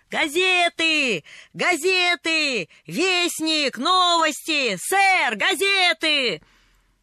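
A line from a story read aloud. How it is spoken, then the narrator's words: Shouting. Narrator (Russian): он кричал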